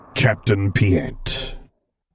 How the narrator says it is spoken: the man returned, vocoder rumbling with something dangerous

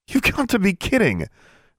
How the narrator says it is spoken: Alexandra blurted out

